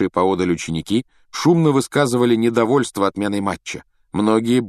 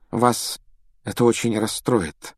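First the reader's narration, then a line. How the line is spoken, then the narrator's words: Unusually gentle female voice. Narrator (Russian): произнесла профессор МакГонагал непривычно мягким тоном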